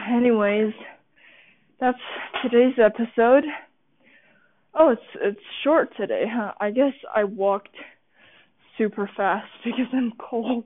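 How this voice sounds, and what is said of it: Out of breath. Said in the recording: “I'm so out of breath.”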